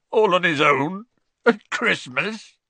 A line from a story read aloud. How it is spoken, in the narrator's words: choked Hagrid